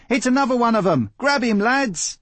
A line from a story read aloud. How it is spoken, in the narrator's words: a rough voice shouted